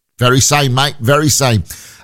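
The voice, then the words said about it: Put-on Australian accent. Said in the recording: “You'd never guess he was Australian from that accent, would you?”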